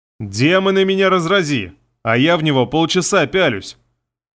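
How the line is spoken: Laughing loudly again. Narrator (Russian): Алона опять захохотала

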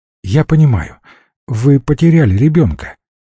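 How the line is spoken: Calm. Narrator (Russian): продолжил он уже спокойно

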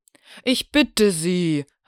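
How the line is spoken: Calling out. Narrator (German): rief Ogilvy

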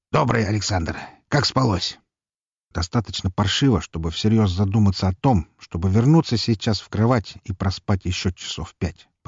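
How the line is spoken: Grumbled. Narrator (Russian): проворчал я

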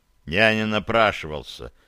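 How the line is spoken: Grumbling mutter. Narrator (Russian): буркнул он

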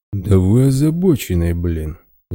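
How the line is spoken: Quiet indignant bear. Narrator (Russian): негромко возмутился медведь

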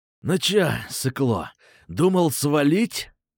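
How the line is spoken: Pleased hiss. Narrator (Russian): довольно прошипел чувак

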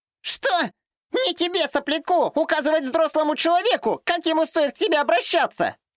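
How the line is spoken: Shrill squeal. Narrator (Russian): взвизгнула дамочка

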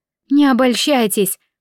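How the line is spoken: Hoarse croak. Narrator (Russian): прохрипела

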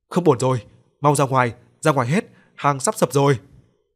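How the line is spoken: Startled shout. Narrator (Vietnamese): thoáng chấn tỉnh hắn hét lớn

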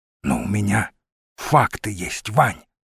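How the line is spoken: Whispered exclamation. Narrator (Russian): шепотом воскликнул Мамонт

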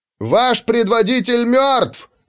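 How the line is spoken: Yelled. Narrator (Russian): заорал

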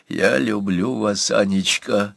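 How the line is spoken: Rich, heated cooing bleat. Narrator (Russian): Жирным, жарким голосом почти проворковал, проблеял Иван Кузьмич

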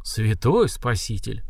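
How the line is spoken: Breathed out in unison. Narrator (Russian): в один голос выдохнули маги и стражники

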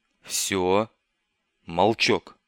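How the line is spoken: Stern whisper. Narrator (Russian): строго прошептал Бибик

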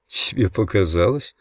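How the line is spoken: Confused mumble. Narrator (Russian): пробормотал растерянно

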